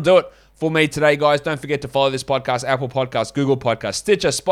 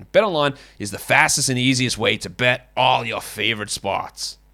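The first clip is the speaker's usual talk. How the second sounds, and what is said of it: Bad put-on accent. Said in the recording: “shit accent”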